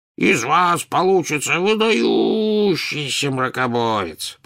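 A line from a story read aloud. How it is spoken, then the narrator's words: Booming drone. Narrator (Russian): прогудел Слизнорд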